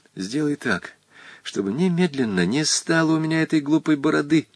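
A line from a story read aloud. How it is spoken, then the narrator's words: Whisper close to ear. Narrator (Russian): Волька продолжал шепотом, нагнувшись к самому уху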